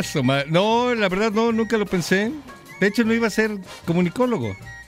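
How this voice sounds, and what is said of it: Broadcaster-style announcer voice. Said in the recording (Spanish): “tiene voz así como para... Tú tienes voz de locutor ... Tienes voz de locutor, amigo.”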